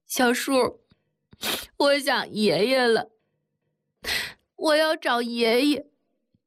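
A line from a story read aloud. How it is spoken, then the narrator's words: Crying child. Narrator (Chinese): 婴儿，哭着对铁蛋说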